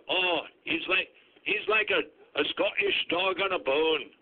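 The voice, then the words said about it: Inaccurate put-on Scottish accent. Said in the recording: “That was maybe my Swedish accent. I can't keep the two countries straight. ... you were about as accurate as that Scotty Scottish accent”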